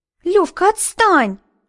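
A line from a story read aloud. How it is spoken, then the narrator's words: Shrill squeal. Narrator (Russian): взвизгнула Лилечка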